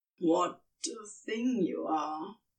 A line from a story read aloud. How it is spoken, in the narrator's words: Crowley growled